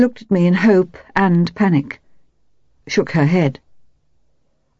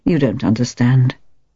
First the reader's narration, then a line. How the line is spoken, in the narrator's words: she muttered